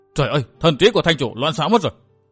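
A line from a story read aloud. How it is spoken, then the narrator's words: Anxious exclamation. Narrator (Vietnamese): Trương Hùng nóng nảy kêu lên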